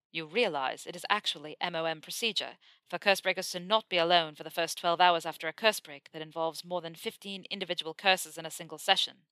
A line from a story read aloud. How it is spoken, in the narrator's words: Draco said firmly